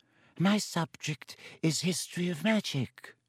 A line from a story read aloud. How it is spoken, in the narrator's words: said in his dry, wheezy voice